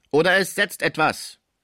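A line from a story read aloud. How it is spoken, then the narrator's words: Fearsome shout. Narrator (German): rief Topinard mit furchtgebietender Stimme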